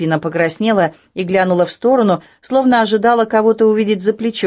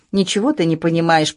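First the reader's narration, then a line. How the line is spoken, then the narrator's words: Mumbling. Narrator (Russian): пробормотала она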